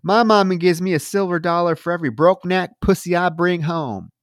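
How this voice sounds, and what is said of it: Put-on Southern accent. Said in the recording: “I don't know why I'm randomly going into Southern accents in and out of this episode.”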